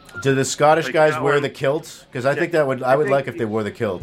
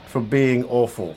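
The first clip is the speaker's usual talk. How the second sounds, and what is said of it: Bad put-on British accent. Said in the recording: “That's a bad British accent. ... That was terrible.”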